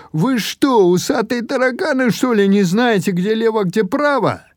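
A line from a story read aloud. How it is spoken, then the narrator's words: Yelling from above. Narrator (Russian): Он завопил на нас сверху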